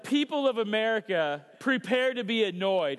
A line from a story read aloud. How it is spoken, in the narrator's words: she yells